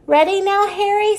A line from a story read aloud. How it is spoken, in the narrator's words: said Lulu